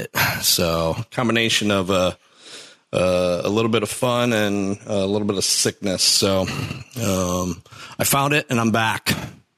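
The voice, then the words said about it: Scratchy, recovering hoarse voice. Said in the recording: “my voice sounds a little scratchy, that's because I lost it, but uh, it's coming back”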